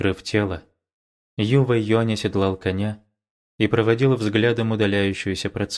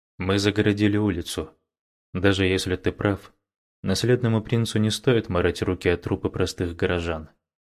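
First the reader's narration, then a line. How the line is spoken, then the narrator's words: Quiet. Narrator (Russian): Юбайху тихо произнес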